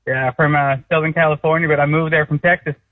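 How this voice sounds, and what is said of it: Put-on American Texas accent. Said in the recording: “sounds like a real Texas accent ... That's a great accent ... That was actually very solid ... I actually preferred ... American”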